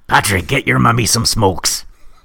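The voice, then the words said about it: Irish-accented impression of a mother. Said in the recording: “Give me a quick impersonation of my Irish mother”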